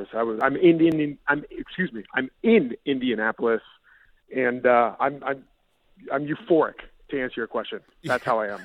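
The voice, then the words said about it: Slightly hoarse voice. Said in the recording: “if I sound a little hoarse ... I've been yelling for 48 straight hours”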